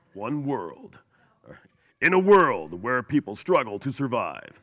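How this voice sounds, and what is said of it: Deep Don LaFontaine movie-trailer voice. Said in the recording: “a little bit of the smoker voice and with a little bit of Don LaFontaine mixed in, for those who know who he is, the original movie voice guy”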